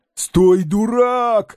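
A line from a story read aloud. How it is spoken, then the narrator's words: Shout. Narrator (Russian): закричал Балаганов Козлевичу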